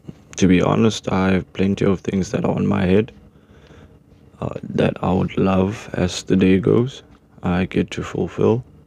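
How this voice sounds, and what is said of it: Rough, just-woke-up voice. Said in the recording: “my voice sounding a bit out of shape. Just woke up”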